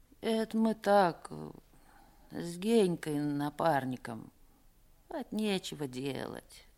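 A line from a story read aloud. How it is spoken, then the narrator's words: Mumbled. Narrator (Russian): пробормотал Пека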